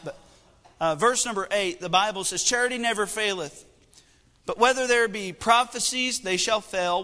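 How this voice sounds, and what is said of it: Strained, struggling voice. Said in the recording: “my voice is kind of struggling”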